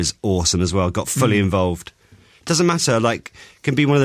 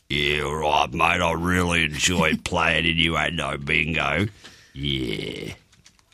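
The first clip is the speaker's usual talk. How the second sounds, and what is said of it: Imitates another person's voice. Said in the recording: “Do Hugh Jackman again.”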